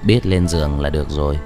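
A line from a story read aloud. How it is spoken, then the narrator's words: Softly said. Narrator (Vietnamese): Tiêu Trạch khẽ nói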